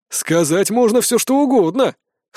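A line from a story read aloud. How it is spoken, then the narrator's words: Wry snort. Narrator (Russian): хмыкнул Ткор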